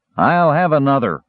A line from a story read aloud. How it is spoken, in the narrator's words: was the slurred reply